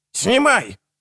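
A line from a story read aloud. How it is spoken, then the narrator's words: Barking shout. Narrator (Russian): рявкнул Генрих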